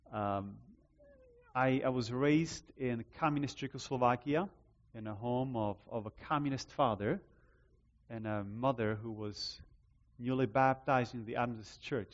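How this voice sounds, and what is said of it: Noticeable foreign accent in English. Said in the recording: “By now, you hear the accent. You're wondering, you're trying to fit it, right? Where is this coming from?”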